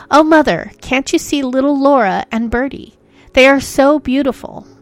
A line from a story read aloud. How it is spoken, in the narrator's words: she exclaimed